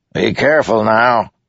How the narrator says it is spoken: Teft barked

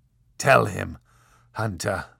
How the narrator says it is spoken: rasped the Marquis de Carabas

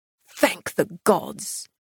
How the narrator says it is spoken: he growled

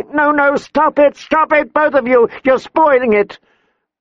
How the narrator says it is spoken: Sansa was shrieking

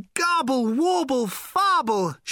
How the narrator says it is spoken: shouted in his thin, tremulous voice

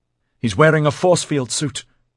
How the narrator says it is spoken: Rennie exclaimed

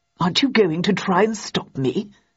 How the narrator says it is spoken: asked Hobbs in a puzzled tone

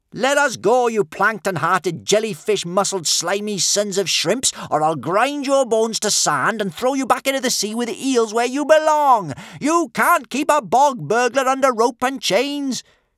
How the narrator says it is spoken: shouted Kamikaze

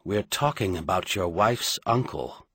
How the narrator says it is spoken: Merlin replied quietly

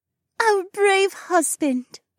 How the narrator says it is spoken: Becca purred

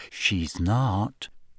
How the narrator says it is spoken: said Ginny quietly

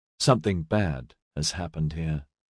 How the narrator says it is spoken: he said quietly

